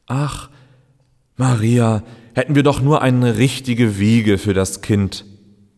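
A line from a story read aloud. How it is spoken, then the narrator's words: Husband sighing. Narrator (German): seufzte ihr Mann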